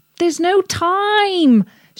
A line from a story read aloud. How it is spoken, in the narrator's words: shouted Harry